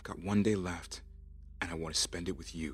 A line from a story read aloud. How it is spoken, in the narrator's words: he whispered to himself